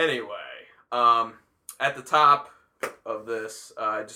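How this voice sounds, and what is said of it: Usual voice. Nothing is said of it.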